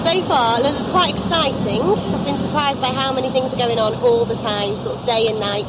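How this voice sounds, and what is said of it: Northwest English accent. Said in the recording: “she's got that sort of uh, northwest accent going on because she's from Blackpool, which is up on the northwest coast”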